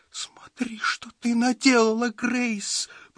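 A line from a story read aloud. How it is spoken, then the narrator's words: Whine. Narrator (Russian): проскулила она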